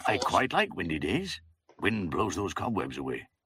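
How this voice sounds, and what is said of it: Welsh accent. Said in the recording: “That's a Welsh accent”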